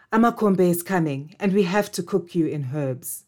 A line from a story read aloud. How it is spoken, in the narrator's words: Hannah said